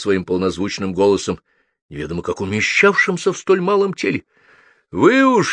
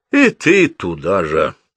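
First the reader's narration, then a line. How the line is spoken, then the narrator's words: Tired. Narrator (Russian): устало сказал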